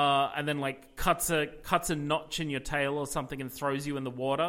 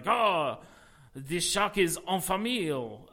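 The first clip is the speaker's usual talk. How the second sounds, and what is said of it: Put-on Cajun French accent. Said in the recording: “this very like Cajun shark hunter ... I'm going very French ... there's a lot of French in the Cajun accent”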